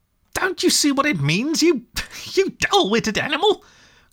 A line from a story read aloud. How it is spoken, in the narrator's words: cried the rat impatiently